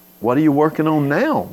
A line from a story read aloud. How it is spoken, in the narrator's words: they said